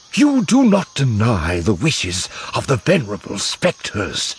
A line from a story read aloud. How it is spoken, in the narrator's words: Tashu hisses